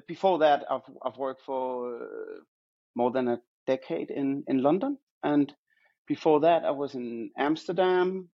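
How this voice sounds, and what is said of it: Danish accent. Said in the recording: “I studied in Denmark, where I was born and raised in Copenhagen. So, that's where you can hear my accent from.”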